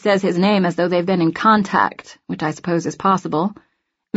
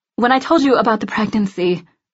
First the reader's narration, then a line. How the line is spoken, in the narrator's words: I sigh